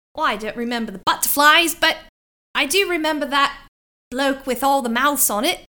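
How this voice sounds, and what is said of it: Inconsistent exaggerated fake British accent. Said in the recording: “It is. I'm offending people all over the world right now, especially because it's all over the place. ... She's really nailing the Dick Van Dyke British accent”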